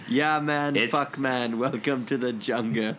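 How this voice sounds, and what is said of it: Exaggerated bro-ish radio voice. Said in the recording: “That's what ... just sounded like. That's his radio voice.”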